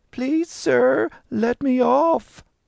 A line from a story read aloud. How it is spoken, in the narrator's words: said in a crying voice